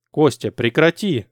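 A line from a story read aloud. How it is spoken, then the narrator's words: Stern demand. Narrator (Russian): строго потребовал Эрик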